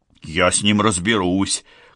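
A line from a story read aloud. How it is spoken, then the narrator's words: Menacing, anxious. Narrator (Russian): грозно заявил Джордж, чувствуя растущее беспокойство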